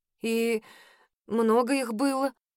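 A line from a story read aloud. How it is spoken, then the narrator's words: Hoarse question. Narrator (Russian): хрипло спросила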